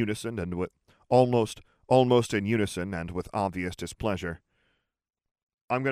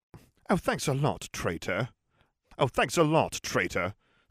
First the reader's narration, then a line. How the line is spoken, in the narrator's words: snapped Jim